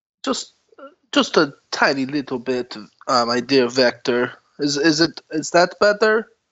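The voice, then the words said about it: Theatrical vampire character accent. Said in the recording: “forgive my accent ... your accent makes you say people's names wrong”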